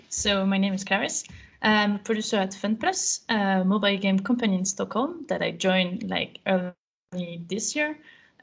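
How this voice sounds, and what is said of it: French accent in English. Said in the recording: “I'm French, as my accent probably gave away”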